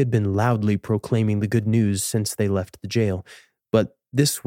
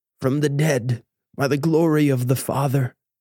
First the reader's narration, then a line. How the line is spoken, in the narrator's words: Denis slurred